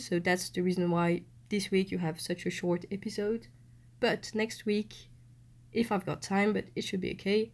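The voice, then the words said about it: Non-native accent, congested voice. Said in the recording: “sorry for my accent. I haven't really practiced my English skills for two months ... I know I've got a cold, so my voice is not like the traditional one”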